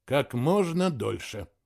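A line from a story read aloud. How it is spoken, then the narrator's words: Sighing. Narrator (Russian): вздохнул и сказал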